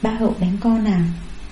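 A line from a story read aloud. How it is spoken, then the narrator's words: Gentle motherly voice. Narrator (Vietnamese): Sự dịu dàng của mẹ Hà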